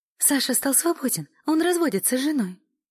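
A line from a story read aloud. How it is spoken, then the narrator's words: Joyful blurting. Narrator (Russian): радостно выдала Эля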